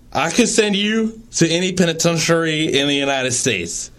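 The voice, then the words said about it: Imitates another person's voice. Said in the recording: “I'm going to try uh, reading the quotes in Delahaye's voice, in my best Delahaye voice”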